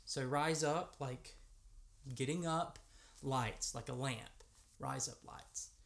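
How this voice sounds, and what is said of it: American accent. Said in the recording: “me, an American, say, with my American accent”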